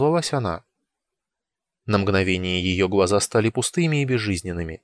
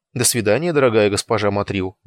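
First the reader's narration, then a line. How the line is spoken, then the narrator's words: Quick speech. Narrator (Russian): быстро сказал я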